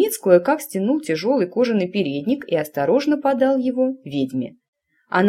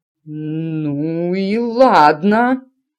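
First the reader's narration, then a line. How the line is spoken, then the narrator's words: Stammering. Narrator (Russian): заикаясь, выговорила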